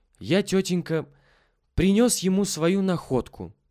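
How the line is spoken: Cheerful reply. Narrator (Russian): весело ответил Петя

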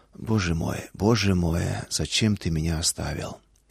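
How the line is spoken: Whispered, not screamed. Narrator (Russian): Шепот, не вопль

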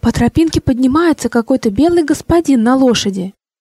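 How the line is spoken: Excited neighbor. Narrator (Russian): соседка взволнованно сообщила

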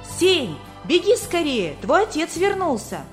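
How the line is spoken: Excited young girl. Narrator (Russian): моя названная сестричка и взволнованно сообщила

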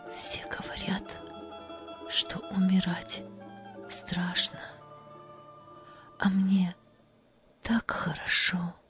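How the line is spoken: Smiling whisper. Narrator (Russian): она улыбнулась и прошептала

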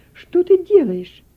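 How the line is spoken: Exclaimed. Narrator (Russian): воскликнула

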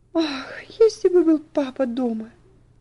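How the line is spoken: Trembling sigh. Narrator (Russian): вздохнула Элси, бледное и дрожащее

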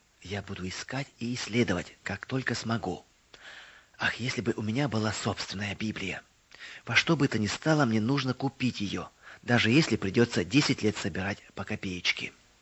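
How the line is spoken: Whisper. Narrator (Russian): Мэри прошептала

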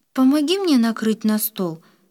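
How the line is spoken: Conciliatory request. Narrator (Russian): примирительным тоном попросила Оля

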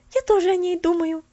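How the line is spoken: Cheerful. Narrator (Russian): весело подхватила Поллианна

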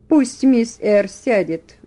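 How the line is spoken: Plain. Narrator (Russian): сказал он

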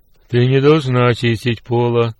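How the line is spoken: Executioner's roar. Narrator (Russian): проревел один палач

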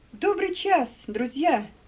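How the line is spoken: Shouting. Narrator (Russian): крикнул Симеон

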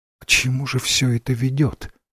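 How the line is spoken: Quiet, to herself. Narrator (Russian): тихо сказала королева, обращаясь скорее к себе, чем к Ренсому

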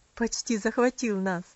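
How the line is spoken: Laughing. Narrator (Russian): засмеялась тетушка Хлоя

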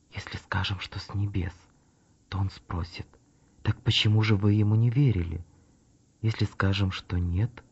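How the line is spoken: Group whispering. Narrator (Russian): Они зашептались между собой

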